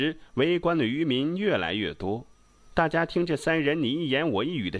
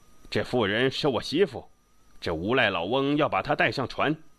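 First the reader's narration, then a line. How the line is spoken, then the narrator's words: Roaring. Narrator (Chinese): 寇三狗也不退让，大吼道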